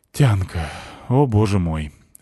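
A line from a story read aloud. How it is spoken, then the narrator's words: Sighing. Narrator (Russian): вздохнул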